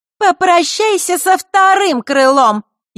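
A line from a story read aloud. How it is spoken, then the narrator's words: Snide shout. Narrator (Russian): ехидно прокричала Маришка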